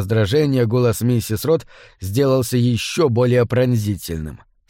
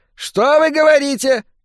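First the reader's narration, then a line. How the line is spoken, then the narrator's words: Old woman shouting. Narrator (Russian): закричала старуха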